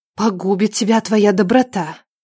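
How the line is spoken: Bitter whisper. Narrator (Russian): горько шепнула Надежда

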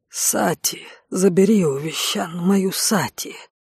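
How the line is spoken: Whisper. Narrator (Russian): прошептал Игуш

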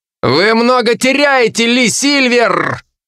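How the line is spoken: Growled. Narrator (Russian): прорычал я вдобавок

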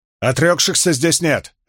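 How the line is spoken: Barking. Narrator (Russian): рявкнула Авиенда

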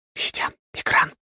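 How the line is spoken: Whispered command. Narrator (Russian): скомандовала шепотом

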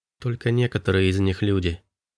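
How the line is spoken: Soft voice from afar. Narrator (Russian): произнесла Киа мягким голосом с другого конца комнаты

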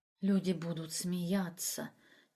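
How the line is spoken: Quiet. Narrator (Russian): тихо сказала Эмина

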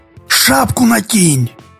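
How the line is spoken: Whisper. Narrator (Russian): прошептал Олег

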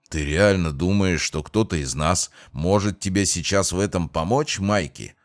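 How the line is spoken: Grumbling. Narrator (Russian): проворчал Джейсон

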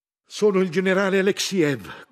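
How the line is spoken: Shouting. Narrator (Italian): gridava

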